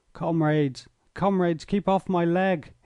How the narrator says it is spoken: he cried

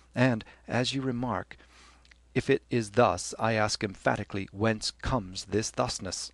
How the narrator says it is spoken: Glynn coughed and said gently, holding back with difficulty the nervous titter in his voice

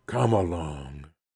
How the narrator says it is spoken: brought out, in a growl of rapture

